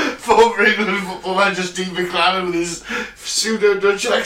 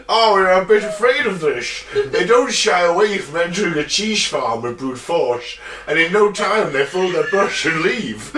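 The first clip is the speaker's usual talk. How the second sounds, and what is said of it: Poor put-on Dutch accent. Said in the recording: “Connery with a lisp ... That's my Dutch accent ... Mixed with a bit of Bane ... I massacred that”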